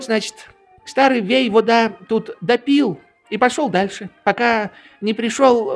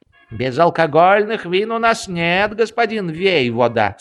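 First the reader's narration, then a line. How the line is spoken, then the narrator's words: Plain. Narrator (Russian): сказали ему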